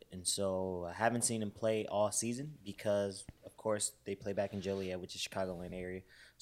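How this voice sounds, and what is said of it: Hoarse voice. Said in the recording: “voice is kind of hoarse. ... my voice is hoarse from hollering, but it might make me kind of sound more sexy”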